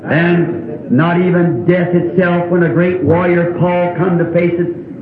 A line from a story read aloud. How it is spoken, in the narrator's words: he screamed